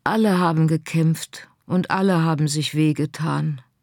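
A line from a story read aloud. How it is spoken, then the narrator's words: Sigh. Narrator (German): seufzte Scarlett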